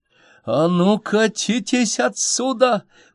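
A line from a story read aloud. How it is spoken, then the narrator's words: Terrible yelling. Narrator (Russian): ужасным голосом заорала Инночка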